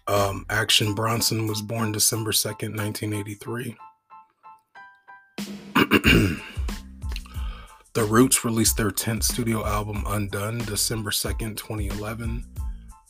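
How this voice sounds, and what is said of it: Hoarse voice. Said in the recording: “my voice is a little hoarse,”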